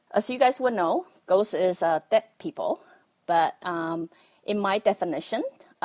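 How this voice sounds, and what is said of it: Taiwanese-accented English. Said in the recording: “bear with my Taiwanese accent”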